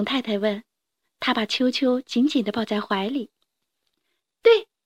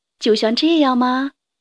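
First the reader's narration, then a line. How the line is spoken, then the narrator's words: Plain. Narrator (Chinese): 熊太太问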